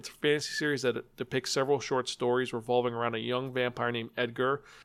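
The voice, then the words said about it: Low, mumbling recovering voice. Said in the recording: “I was mumbling a bit, and I know I was a little low, but my voice is still getting used to talking after the surgery.”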